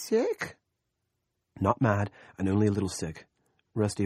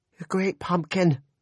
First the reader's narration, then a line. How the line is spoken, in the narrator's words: Janelle cried